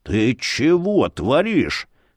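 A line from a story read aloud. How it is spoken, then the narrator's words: Hissed. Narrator (Russian): прошипел ледорез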